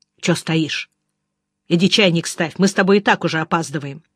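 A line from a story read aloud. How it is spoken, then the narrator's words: Angry. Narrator (Russian): сказал сердито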